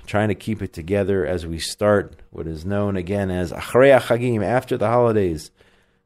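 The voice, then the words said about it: Sick, under-the-weather voice. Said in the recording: “I'm a little bit under the weather. Don't know if you can tell by my voice.”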